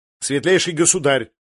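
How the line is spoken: Sharp reminder. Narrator (Russian): резко напомнил он

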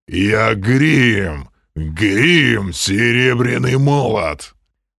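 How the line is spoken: Giant's growl. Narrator (Russian): прорычал гигант

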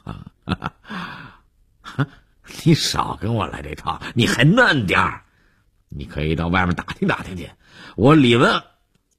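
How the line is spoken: Taken aback, then laughing. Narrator (Chinese): 李文海愣了一下，又笑着说

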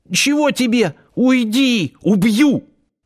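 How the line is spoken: Sudden hoarse squeak. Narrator (Russian): внезапно севшим голосом пискнул

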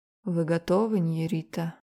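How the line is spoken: Muffled voice. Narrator (Russian): Глухим голосом спросил он

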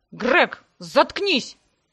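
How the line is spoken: Barked in unison. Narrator (Russian): С удивительным единодушием рявкнули мы с Себастьяном

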